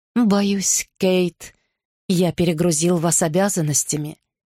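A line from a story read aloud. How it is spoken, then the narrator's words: Soft, gentle. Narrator (Russian): мягко проговорил он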